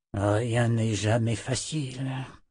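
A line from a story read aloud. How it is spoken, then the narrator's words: Muttered while walking. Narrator (French): marmonna-t-il en marchant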